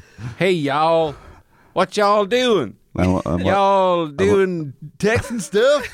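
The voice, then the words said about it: Put-on Texan accent. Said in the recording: “Your Texas accent is amazing.”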